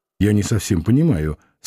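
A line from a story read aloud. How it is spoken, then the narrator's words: Plain. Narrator (Russian): сказал Самгин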